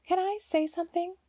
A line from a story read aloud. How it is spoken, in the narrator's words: said timidly